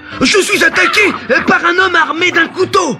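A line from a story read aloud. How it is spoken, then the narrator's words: Screaming even louder. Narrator (French): se mit à hurler de plus belle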